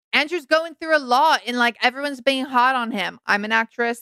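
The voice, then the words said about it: Put-on Australian accent. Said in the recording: “That's an Australian accent.”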